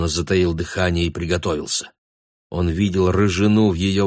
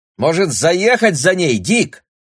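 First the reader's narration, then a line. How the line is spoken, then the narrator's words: Shrill voice. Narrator (Russian): спросила она пронзительным голосом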